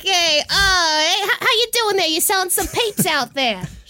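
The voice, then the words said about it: New York mobster accent. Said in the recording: “I'm just turning into a mobster, basically ... New York accent”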